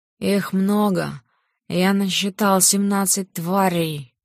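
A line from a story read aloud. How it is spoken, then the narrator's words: Low growl. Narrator (Russian): Тихонько рыкнув, он выговорил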